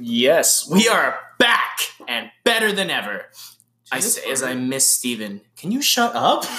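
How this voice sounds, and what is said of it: Usual voice. Nothing is said of it.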